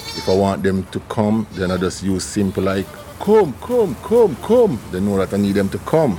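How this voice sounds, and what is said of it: Jamaican accent. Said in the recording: “his Jamaican accent”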